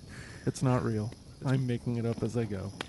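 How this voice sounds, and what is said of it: Fake public-radio announcer voice. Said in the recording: “this is my best fake NPR voice.”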